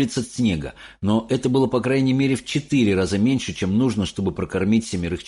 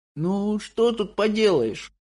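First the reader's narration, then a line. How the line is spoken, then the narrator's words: Sad muttering, grandmother. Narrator (Russian): грустно пробормотала бабушка Джозефина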